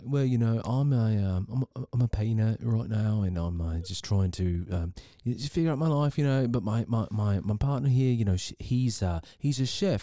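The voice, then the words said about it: Put-on English accent. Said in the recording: “do your best English accent? British?”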